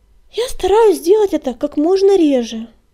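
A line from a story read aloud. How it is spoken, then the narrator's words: Honest sigh. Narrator (Russian): честно вздохнула Пепелюшка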